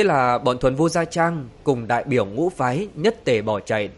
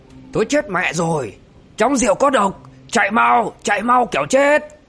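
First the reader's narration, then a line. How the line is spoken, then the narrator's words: Loud ringing shout. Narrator (Vietnamese): Linh Miêu Tẩu quát vang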